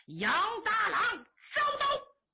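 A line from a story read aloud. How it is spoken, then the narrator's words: Loud battle cry. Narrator (Chinese): 乌桓奴高声喊喝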